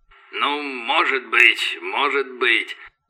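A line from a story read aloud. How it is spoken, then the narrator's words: Began muttering. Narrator (Russian): забормотал Росс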